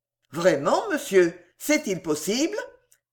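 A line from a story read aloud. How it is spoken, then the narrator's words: Surprised exclamation. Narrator (French): s'écria Sam en reculant de surprise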